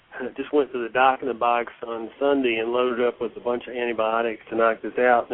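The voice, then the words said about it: Congested, sick-sounding voice. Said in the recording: “Sorry about my voice. I am recovering from a sinus infection.”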